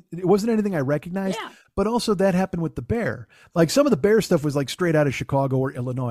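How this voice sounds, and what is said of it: Chicago accent. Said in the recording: “The cadence of saying the Bear. It reminds me of the Bears. ... my accent isn't helping. ... It is a Chicago thing.”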